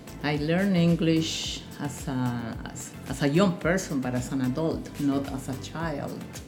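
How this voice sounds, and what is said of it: Spanish accent in English. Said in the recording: “Spanish is my native language, English, although I have an accent ... I do have an accent”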